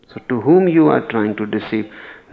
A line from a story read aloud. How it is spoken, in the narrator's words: Nasruddin laughed loudly